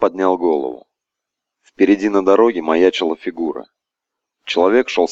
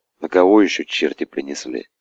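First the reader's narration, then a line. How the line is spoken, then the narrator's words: Muttered. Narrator (Russian): Пробормотал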